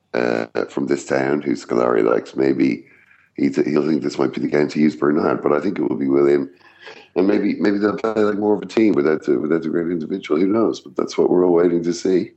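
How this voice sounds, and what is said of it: Husky, phlegmy voice. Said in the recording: “your voice it just sounds incredible today. It's husky. It's it's really phlegm ridden ... you sound like a 1950s jazz singer”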